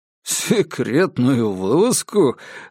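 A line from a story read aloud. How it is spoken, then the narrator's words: Laughing. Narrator (Russian): рассмеялся Диккенс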